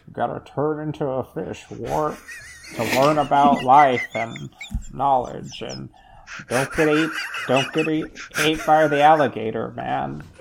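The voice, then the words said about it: Imitates another person's voice. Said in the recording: “that good Sam Elliott impression”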